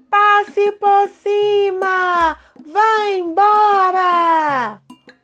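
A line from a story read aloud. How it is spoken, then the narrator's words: Shouting. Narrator (Portuguese): pôs-se a gritar para ela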